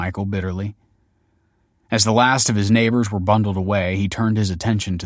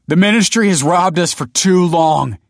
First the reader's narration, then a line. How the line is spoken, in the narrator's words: he cried